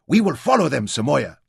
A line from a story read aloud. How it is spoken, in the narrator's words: he cried eagerly